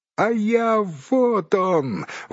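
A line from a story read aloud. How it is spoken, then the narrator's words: Exclamation. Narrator (Russian): воскликнул Бильбо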